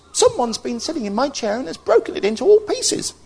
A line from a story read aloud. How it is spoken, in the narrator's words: Little Bear said in a small, squeaky baby voice